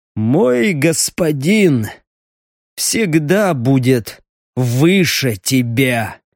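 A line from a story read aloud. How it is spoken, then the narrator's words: Wheezing hiss. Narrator (Russian): просипел стриж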